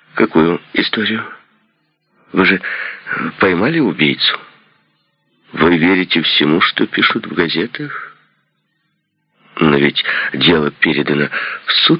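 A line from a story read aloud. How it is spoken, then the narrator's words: Plain. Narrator (Russian): сказал Ли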